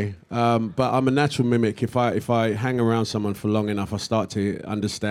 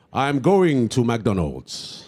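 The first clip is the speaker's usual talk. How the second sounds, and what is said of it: Put-on African English accent, noble cadence. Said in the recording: “people that come from Africa speak English with such an interesting cadence. It's broken up, but almost anything you say sounds noble ... It just sounds noble.”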